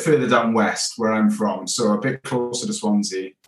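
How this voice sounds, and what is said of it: Strong regional accent. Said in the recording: “your accent ... It's a lovely accent ... could you just say that whole sentence again?”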